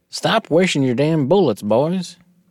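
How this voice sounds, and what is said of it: Put-on Southern US accent. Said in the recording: “That was an interesting southern accent.”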